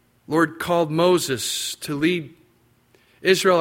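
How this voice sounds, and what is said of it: Usual voice. Nothing is said of it.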